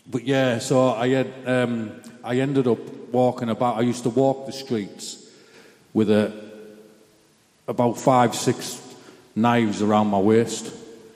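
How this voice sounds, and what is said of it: Mixed English-Scottish accent. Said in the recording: “Can you actually understand my accent ... I'm half between England and Scotland, so I'm like a mix, right, in my accent”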